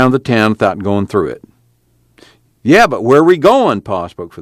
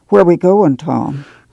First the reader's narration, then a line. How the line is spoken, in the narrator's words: Ma asked timidly